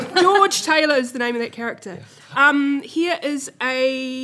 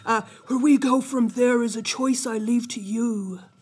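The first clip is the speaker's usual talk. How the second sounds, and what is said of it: Imitates another person's voice, badly. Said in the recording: “my bad Keanu Reeves impression”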